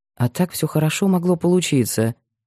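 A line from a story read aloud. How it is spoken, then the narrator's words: Mutter. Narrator (Russian): пробормотал Кирилл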